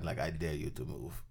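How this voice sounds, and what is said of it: Put-on Russian accent. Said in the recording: “Was that an accent? ... was one that of them supposed is to be his Russian accent? ... Ah, it was.”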